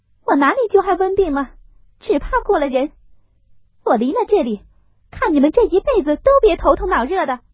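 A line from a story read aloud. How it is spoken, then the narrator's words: Angry shouting, coughing. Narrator (Chinese): 晴雯睡在暖阁里，只管咳嗽，听了这话气得喊道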